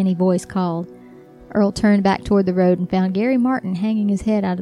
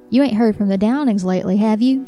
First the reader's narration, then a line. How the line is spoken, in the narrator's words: Gary asked